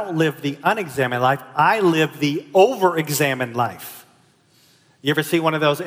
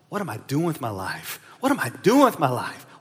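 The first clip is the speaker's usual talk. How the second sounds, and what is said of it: Mumbling to oneself. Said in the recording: “I'm mumbling to myself”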